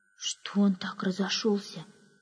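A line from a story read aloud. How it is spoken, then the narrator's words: Whispered question. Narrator (Russian): шепотом спросила одна служанка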